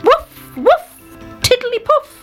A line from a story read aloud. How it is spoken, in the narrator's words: he shouted